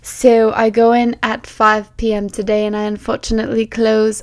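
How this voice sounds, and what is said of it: Put-on accent. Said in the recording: “I don't know why I have an accent. It just makes me feel better and more entertaining.”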